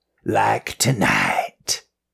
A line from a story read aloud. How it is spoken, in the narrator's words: the Margaret Wolf growled behind her